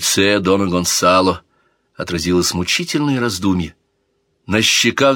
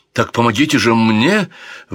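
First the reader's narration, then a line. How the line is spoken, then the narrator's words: Exclamation. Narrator (Russian): воскликнул принц Альфонсо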